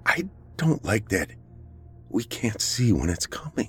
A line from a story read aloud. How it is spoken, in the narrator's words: she said, her voice quivering